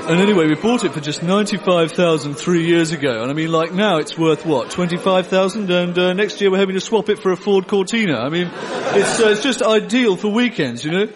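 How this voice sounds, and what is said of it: Posh London yuppie accent. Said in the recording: “Can you recognise their funny accents? That's right, they're all yuppie tossers from London.”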